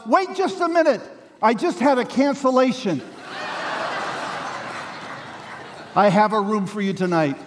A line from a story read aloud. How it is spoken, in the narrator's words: he shouts